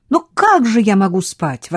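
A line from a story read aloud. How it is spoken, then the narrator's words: Exclamation. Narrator (Russian): воскликнула она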